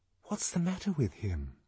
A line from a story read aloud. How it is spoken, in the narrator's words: whispered Lenina